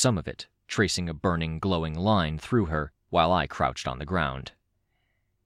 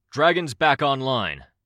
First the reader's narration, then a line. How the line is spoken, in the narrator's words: Defiant called out